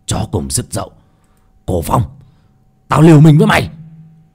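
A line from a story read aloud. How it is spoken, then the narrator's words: Furious roar. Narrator (Vietnamese): Giận dữ gầm lên một tiếng, Nhất Sát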